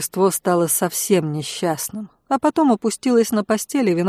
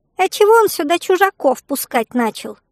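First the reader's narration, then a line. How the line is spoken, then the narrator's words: Indignant squeak, spirit. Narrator (Russian): возмущенно пискнул дух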